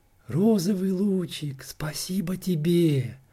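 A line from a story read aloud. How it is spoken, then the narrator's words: Whisper. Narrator (Russian): шепнул Фиолетик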